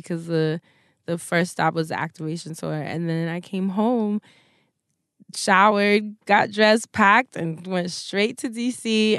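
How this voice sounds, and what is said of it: Tired, exhausted-sounding voice. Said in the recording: “I'm literally so exhausted. You can hear it in my voice.”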